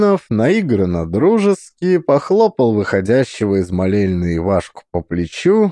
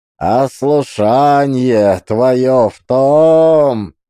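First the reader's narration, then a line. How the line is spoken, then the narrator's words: Nasal singsong. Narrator (Russian): Гнусаво, нараспев, начал Евсей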